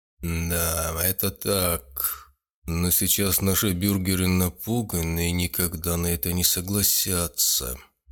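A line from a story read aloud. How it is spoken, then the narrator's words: Gloomy remark. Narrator (Russian): мрачно заметил Венцель Марцелл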